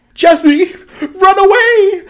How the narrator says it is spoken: James yelled

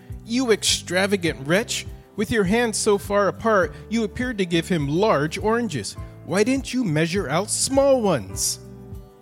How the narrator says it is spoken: The father immediately flew into a terrible rage, exclaiming

